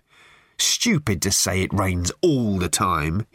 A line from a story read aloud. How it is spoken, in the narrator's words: he said